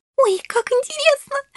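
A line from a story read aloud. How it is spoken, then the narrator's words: Happy squeal. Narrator (Russian): счастливо взвизгнула Шелли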